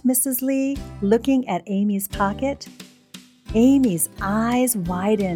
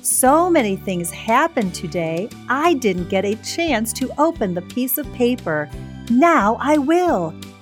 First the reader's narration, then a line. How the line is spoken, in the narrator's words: exclaimed Amy